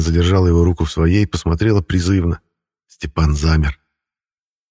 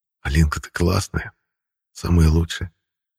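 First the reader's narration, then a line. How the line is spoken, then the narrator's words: Soft whisper. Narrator (Russian): прошептал тихо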